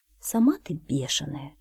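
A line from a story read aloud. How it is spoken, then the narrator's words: Quiet, a cat. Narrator (Russian): тихо сказала кошка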